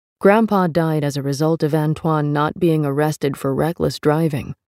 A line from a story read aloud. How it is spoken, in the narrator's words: he said